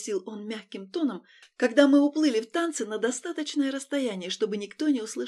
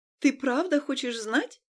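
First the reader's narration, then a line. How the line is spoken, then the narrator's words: Nervous laugh. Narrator (Russian): Я нервно рассмеялась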